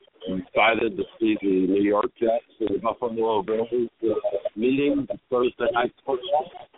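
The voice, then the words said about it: Deep radio announcer voice. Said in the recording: “you definitely got a radio voice, man. They ain't nothing but voice but radio voice. You ain't an opera singer.”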